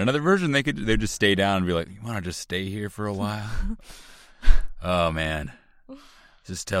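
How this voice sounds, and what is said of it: Usual voice. Nothing is said of it.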